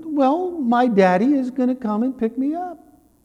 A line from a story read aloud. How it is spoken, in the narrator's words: the child cheerfully responded